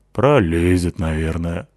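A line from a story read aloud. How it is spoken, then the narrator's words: Sigh. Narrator (Russian): вздохнула Натаха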